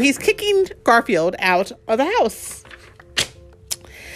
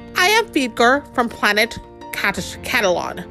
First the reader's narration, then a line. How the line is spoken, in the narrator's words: said the new cat in a crackling, beeping voice